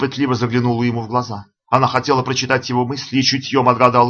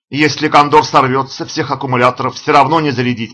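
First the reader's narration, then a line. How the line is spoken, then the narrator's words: Shouted reply. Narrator (Russian): прокричал в ответ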